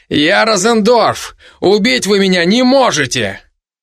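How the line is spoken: Strained shout. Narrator (Russian): Через силу, все-таки раскрыв рот, я крикнул

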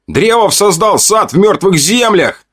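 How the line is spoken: Shouted. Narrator (Russian): Кто-то выкрикнул

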